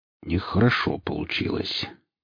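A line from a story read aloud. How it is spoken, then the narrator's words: Muttering. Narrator (Russian): пробормотал сталкер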